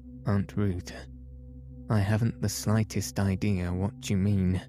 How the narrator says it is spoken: I said, quite haughtily, for I felt I was not being treated fairly

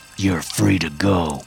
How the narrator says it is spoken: I say in a growl

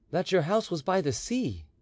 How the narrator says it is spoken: he said uneasily

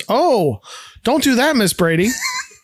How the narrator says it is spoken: Alice … she shouts

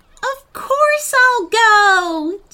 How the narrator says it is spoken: Jemma cried

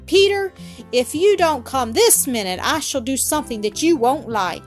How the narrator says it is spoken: shouted angrily to the boy

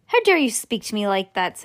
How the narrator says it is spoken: said Mrs

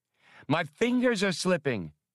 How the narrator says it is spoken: cried Hasty with unmasked fear

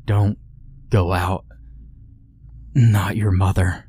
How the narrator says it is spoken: managed to gasp out before falling back into the throes of slumber

